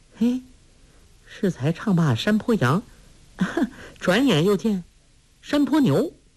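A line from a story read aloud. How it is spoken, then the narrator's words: Laughing. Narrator (Chinese): 黄蓉笑道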